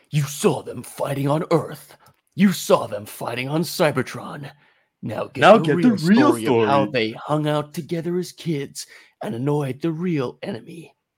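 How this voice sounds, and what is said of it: Movie trailer announcer voice. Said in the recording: “You got to do the trailer voice.”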